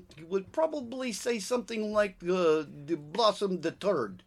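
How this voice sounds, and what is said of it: Mock French-Russian accent. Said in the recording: “a different accent... you went from French to Russian”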